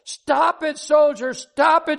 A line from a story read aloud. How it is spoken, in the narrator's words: she screamed